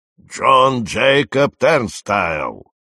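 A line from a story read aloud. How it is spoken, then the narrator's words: Growled. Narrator (Russian): прорычал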